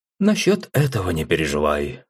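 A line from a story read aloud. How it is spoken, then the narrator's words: Calm. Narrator (Russian): спокойно произнес Элим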